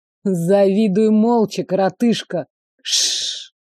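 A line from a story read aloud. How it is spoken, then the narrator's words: Hissing. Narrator (Russian): шипение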